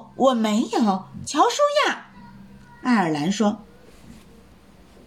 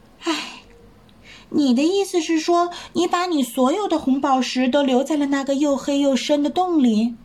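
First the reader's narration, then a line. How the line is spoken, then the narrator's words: Sighing. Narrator (Chinese): 乔舒亚叹了口气说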